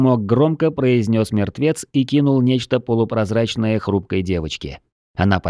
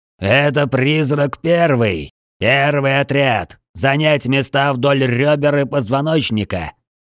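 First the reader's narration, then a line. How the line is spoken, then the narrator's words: Giant's barked command. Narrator (Russian): гаркнул командующий великан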